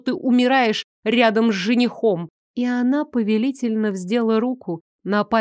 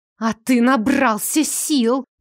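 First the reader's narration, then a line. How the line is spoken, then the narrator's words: Hissing. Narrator (Russian): прошипела Ильза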